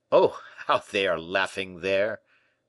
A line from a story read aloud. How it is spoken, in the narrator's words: said Fouquet with a laugh